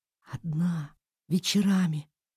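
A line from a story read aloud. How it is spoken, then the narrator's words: Mouthed whisper. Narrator (Russian): Ира прошептала это губами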